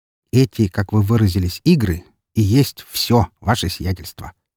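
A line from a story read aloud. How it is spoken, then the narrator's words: Calm, confident correction. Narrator (Russian): спокойным и уверенным тоном поправил я его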